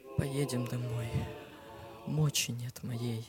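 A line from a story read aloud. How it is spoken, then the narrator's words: Whispered. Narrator (Russian): шепнула Мария мужу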